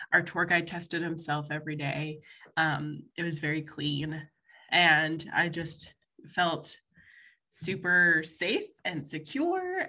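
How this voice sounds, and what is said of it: Congested, stuffy head-cold voice. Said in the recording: “I don't know if you could tell listeners by my sexy, sexy voice,... but I actually caught a head cold”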